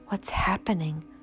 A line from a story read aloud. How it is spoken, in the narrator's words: whispered Bruno